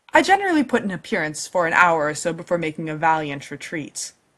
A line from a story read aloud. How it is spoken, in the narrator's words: he says